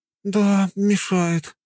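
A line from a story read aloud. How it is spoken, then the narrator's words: Sighing. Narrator (Russian): вздохнула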